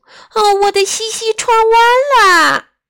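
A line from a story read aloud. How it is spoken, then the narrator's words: Crying woman. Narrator (Chinese): 她哭啊哭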